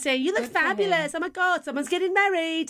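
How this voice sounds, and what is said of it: Put-on English accent, camp voice. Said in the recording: “the person behind the camera is English, some English man ... he sounds of the not heterosexual persuasion ... that was my best I could do for his accent”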